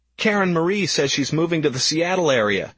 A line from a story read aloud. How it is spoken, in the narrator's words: he blurted ecstatically